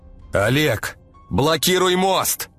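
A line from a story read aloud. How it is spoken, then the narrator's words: Shouting. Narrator (Russian): прокричал агент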